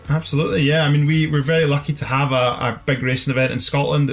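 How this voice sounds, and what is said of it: Scottish accent. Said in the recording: “we can already hear from your accent, it's possibly a local event to you”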